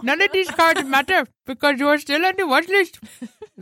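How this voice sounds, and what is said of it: Put-on Indian accent. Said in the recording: “I'm certainly sound Indian... Every time I hear that accent, it just makes me think of Simpsons”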